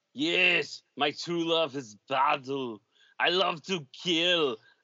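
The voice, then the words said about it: Imitates a character's voice. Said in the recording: “my impression of Conan”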